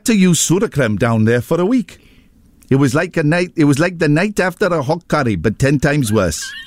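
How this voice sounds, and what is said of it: Put-on Welsh accent. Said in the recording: “He's Welsh. Yeah. I'll do the voice. ... I'm very good at accents.”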